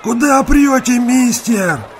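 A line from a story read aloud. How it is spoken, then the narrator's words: Displeased boy's yell. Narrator (Russian): недовольно завопил какой-то парнишка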